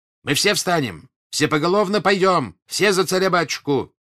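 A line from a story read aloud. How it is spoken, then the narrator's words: Shouting. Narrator (Russian): кричал он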